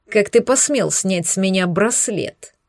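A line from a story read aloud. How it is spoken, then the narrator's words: Hateful growling shout. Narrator (Russian): Перешел на рычащий ненавистью крик зеленоглазый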